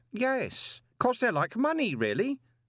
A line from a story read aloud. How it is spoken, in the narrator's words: said Stanley cheerfully